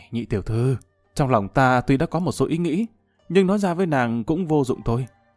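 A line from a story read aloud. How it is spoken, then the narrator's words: Sighing. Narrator (Vietnamese): Lâm Văn Vinh thở dài một cái nói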